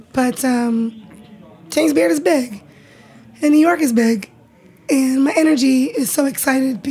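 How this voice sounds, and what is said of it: Raspy, hoarse, fading voice. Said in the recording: “forgive my voice. It's gone... you're losing your voice... I'm already naturally raspy”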